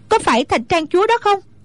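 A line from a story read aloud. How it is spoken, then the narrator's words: Shout. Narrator (Vietnamese): Hoa Vạn Tử la lên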